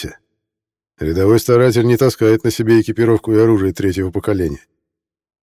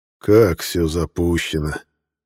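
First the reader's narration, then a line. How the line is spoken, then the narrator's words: Surprised sigh. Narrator (Russian): удивленно вздохнул Декарт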